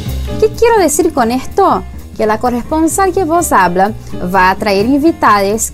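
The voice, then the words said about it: Brazilian accent in Spanish. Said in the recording (Spanish): “una brasileña en Buenos Aires ... mi tonada brazuca”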